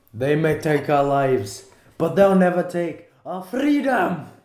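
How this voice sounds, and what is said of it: Put-on Scottish accent. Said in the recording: “Can you do a Scottish accent now? ... That's pretty good.”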